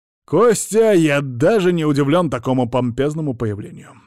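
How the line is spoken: Menacing bark, uncle. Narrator (Russian): рявкнул дядя, грозно оглядывая прибывших гостей

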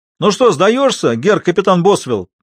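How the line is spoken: Shouted. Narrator (Russian): прокричал кто-то

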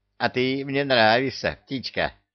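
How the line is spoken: Laughing. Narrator (Russian): засмеялся Люка

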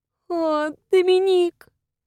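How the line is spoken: Moaning. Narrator (Russian): простонала она

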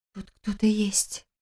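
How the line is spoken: Whispered explanation. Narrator (Russian): объяснила Лиля, почему-то шепотом

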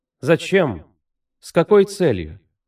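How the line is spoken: Plain. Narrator (Russian): она сказала

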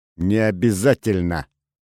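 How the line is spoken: Sharp. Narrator (Russian): резким голосом ответила Олеся

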